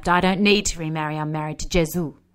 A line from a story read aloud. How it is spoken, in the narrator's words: snapped